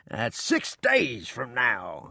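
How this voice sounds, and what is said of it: Jubilant, happy delivery. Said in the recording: “he said in a jubilant voice”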